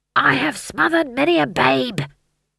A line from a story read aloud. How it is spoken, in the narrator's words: he hissed